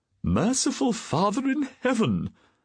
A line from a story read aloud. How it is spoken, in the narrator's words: a voice quavered